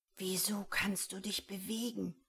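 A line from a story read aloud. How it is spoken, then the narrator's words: Whispered. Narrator (German): flüstert Tobias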